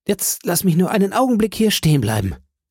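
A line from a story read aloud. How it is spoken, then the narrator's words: Calling out. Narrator (German): rief er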